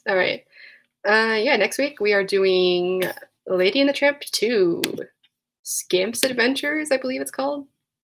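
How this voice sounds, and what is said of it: Hoarse voice. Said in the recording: “I'm hoarse.”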